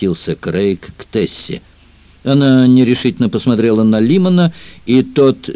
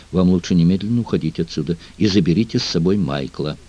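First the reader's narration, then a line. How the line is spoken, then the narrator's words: Quick whisper in ear. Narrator (Russian): девушка быстро зашептала на ухо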